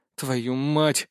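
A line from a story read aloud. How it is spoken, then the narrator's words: Exhaled. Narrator (Russian): выдохнул я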